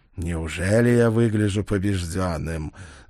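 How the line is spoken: Arrogant snort. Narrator (Russian): заносчиво хмыкнул он

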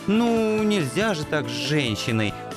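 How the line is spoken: Reproachful drawl. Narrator (Russian): укоризненно протянул Анцифер

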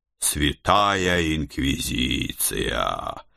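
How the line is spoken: Mutter. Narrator (Russian): пробормотал я

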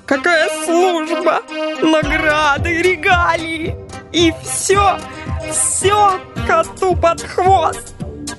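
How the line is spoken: Near sobbing, aggrieved. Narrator (Russian): Суперагент уже почти рыдал от обиды

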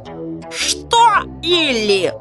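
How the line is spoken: Roared. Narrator (Russian): взревел Сэм

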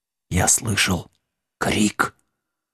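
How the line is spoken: Whisper. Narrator (Russian): прошептал Вилкинс

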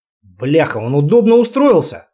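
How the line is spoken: Snorting, wry. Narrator (Russian): хмыкнул Сумов

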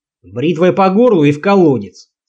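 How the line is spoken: Barked goblin shout. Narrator (Russian): гаркнул гоблин

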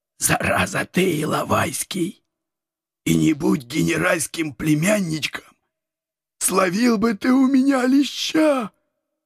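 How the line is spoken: Strained whisper. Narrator (Russian): Осторожно держась за горло, прошептал он

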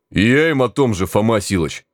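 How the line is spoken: Treacherous booming. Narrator (Russian): Предательски прогудел

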